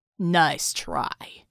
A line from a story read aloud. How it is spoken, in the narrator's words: the armored man snarled